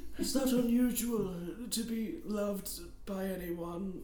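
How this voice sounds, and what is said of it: Imitates another person's voice. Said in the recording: “That's a good Donald Pleasance impression.”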